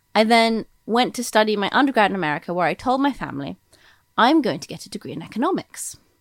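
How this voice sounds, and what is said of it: Somewhat American accent. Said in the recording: “I have a kind of American accent”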